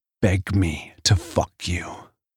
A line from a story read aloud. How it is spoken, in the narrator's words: whisper in her ear